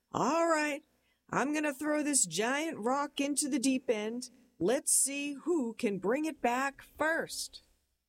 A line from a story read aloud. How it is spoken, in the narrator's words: my dad would shout out